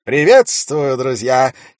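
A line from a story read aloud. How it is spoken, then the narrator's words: Clear loud orator's voice. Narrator (Russian): четко и громко сказал какой-то человек, судя по тону и интонациям, искусный оратор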